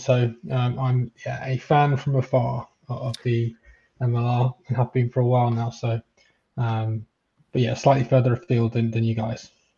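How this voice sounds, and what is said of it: English accent from near London. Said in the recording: “You can probably tell by the slightly rogue accent, but I'm from from just outside of London, England.”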